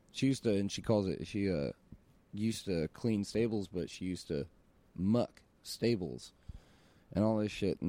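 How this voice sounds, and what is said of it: Tennessee Southern accent. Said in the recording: “the accent starts coming out, because she has an accent ... We're both from Tennessee.”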